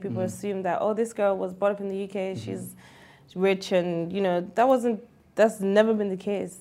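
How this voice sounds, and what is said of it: British accent. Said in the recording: “my accent, because I was brought up in the UK”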